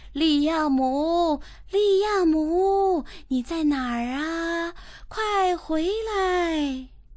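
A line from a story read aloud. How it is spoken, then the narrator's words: Loud, long shouting. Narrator (Chinese): 斯文叔叔的声音最大，喊的时间最长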